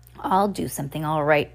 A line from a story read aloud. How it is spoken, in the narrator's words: Officer Luciana said with a snarl